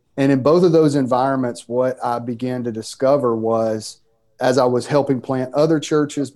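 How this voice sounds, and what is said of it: Mississippi Southern US accent. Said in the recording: “in the state of Mississippi. You can tell by my accent that where I'm from.”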